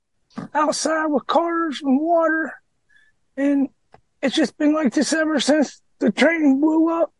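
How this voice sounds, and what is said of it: Unusually high, squeaky altered voice. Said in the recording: “This is not what he sounded like before the train derailment ... You sound like Michael Jackson? ... I sound like Mickey Mouse. ... But he's got a deep, raspy voice normally.”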